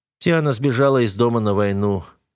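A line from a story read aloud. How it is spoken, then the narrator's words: Sighing. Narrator (Russian): вздохнул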